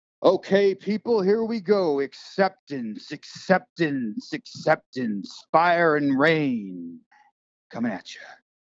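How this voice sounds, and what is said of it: Mock radio DJ voice. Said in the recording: “in your best radio like voice”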